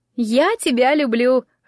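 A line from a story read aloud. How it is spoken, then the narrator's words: Laughing. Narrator (Russian): рассмеялась Джесси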